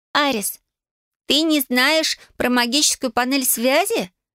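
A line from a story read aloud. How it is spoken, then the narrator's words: Giggling. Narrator (Russian): Лили хихикая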